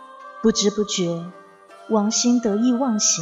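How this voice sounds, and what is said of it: Usual voice. Nothing is said of it.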